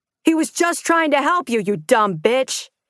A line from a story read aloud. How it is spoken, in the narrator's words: someone shouted